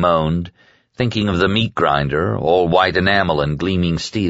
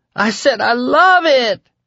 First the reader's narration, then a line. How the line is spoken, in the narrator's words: she screamed